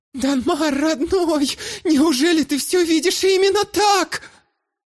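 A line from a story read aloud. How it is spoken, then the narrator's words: Holding back sobs. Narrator (Russian): Ирида пытаясь унять рвущееся наружу рыдание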